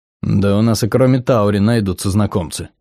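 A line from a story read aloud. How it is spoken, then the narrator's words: Grumble. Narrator (Russian): проворчал Сэл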